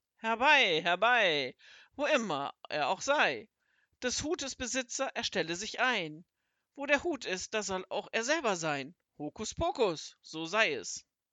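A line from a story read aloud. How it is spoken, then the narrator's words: Thunderous shout. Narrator (German): rief er mit Donnerstimme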